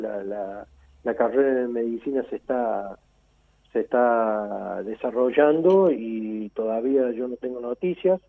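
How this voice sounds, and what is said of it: Córdoba Argentine Spanish accent. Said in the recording (Spanish): “Me encanta su tonada. Usted es de Córdoba.”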